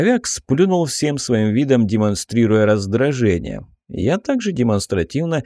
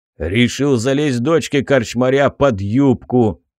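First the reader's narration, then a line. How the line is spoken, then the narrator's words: Booming drone. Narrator (Russian): прогудел Тур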